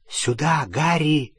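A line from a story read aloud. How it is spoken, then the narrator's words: Barely audible breath. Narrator (Russian): чуть слышно выдохнула Полумна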